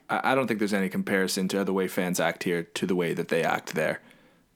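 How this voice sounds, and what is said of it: Canadian English accent. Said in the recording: “a lot of people like your Canadian accent”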